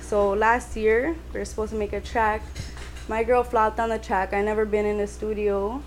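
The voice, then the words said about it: Toronto accent. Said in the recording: “I hear the Toronto accent”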